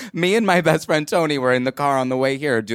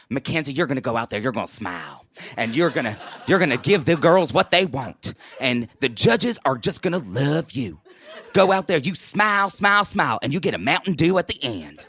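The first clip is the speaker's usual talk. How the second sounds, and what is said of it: Toddlers and Tiaras pageant impression. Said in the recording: “doing a Toddlers and Tiaras impression”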